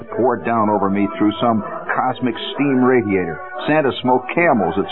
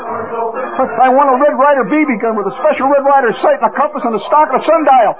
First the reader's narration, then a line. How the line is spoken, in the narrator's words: I shouted